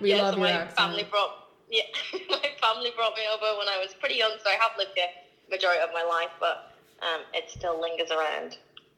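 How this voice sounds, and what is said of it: Slight foreign accent. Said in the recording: “obviously you can tell I have a bit of an accent. I'm an immigrant, clearly.”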